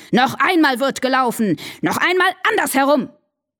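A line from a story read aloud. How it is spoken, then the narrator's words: Furious shouting hare. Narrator (German): Der Hase war ganz außer sich vor Ärger und schrie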